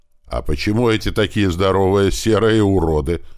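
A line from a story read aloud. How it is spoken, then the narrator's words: Angry question. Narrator (Russian): зло спросил я у Тумана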